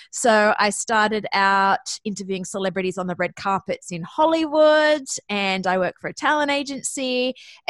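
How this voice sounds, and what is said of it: Australian accent. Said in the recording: “you may notice from my accent that I'm actually Australian”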